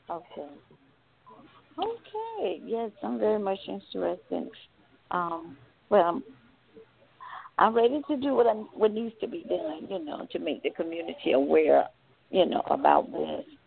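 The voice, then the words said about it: Southern US accent, South Carolina. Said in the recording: “I live in the South. You can tell by the accent from South Carolina.”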